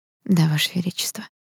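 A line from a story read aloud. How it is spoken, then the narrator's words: Near whisper. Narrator (Russian): почти прошептала я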